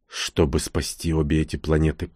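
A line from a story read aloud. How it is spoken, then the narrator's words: Whisper. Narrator (Russian): прошептал я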